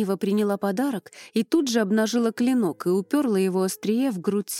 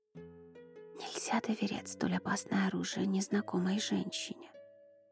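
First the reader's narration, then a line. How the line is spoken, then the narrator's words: Whisper. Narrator (Russian): прошептала она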